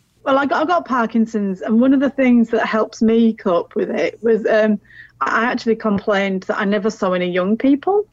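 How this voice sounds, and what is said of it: Northern English accent. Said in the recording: “as you can tell from her accent, she's originally from the north of England”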